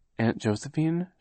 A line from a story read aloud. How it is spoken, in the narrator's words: said timidly